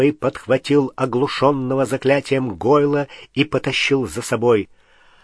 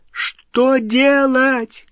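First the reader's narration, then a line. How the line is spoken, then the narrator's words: Shouting over roaring flames. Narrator (Russian): крикнула Гермиона через гудение пламени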